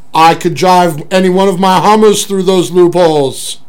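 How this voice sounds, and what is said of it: Arnold Schwarzenegger impression. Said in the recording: “an Arnold Schwarzenegger impression”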